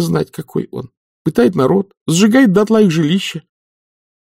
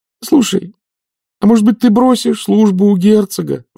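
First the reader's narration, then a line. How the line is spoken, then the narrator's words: Pleading. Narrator (Russian): взмолилась Маград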